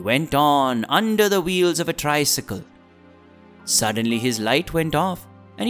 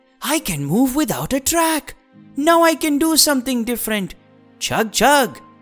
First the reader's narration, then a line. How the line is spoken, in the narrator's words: He said happily